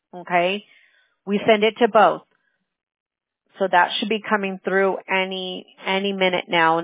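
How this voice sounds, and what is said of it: Strained, losing voice. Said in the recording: “I'm losing my voice already ... all the hollering and screaming with the games ... now it's affecting me today”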